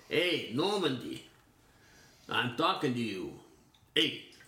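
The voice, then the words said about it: Put-on accent. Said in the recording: “That's the accent I chose for that.”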